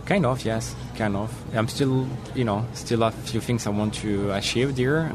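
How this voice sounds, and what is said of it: French accent. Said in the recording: “French accent”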